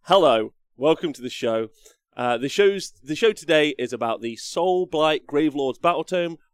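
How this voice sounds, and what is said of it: Croaky voice. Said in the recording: “my voice is a bit croaky today”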